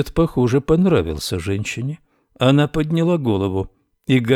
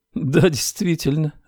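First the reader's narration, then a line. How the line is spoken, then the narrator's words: Laughing woman. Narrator (Russian): рассмеялась женщина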